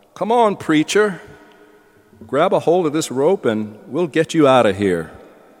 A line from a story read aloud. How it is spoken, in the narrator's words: called out